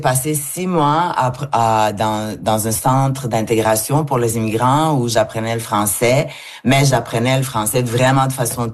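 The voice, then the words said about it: Non-native accent in French. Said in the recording (French): “moi, j'ai quand même un accent”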